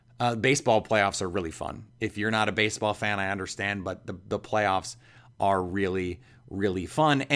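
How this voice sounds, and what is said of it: Slightly hoarse voice. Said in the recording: “If I sound a little bit hoarse, it's because I stayed up late Tuesday night”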